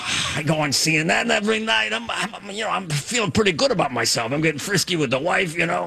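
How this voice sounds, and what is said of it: Impression with gangster-like voice. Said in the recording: “It's not my most accurate impression. ... It's got a little bit like a gangster in there”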